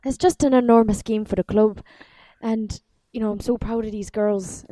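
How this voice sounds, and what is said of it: Imitated accent of a footballer. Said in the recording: “wow, your accent.”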